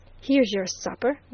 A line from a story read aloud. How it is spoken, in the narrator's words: growled the janitor